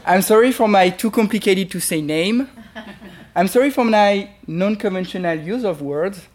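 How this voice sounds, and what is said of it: French accent. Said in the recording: “I am French... I'm sorry for my French boy accent.”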